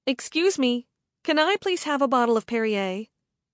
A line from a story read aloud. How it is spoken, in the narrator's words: I called out